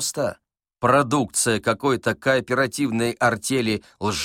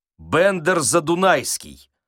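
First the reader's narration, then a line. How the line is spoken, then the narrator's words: Rude reply. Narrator (Russian): грубо ответил великий комбинатор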